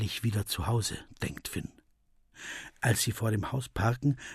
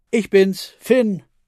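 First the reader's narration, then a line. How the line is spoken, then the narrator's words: Calling down hallway. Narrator (German): ruft in den Flur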